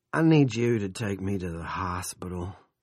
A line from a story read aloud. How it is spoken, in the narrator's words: he said, speaking as calmly as he could manage